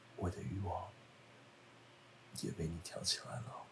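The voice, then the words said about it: Whispered, quiet line. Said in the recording (Chinese): “小声”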